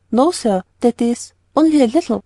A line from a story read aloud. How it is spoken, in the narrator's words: stammered Polly